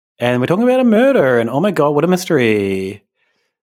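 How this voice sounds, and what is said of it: Valley Girl voice. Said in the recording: “I can't believe I did the Valley Girl voice ... that slightly sexist thing”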